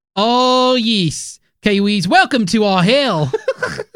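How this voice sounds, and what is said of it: Put-on New Zealand accent. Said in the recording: “How was ... accent? ... for all you New Zealanders out there, let me know.”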